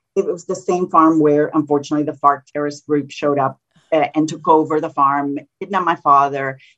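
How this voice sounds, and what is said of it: Spanish accent. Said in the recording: “You think I have a Spanish accent.”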